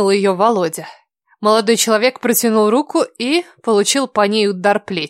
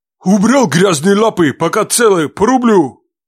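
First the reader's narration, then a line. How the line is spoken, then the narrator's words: Man's rough bark. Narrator (Russian): Грубо гаркнул мужчина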